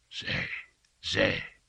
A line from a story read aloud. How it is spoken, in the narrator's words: he whispered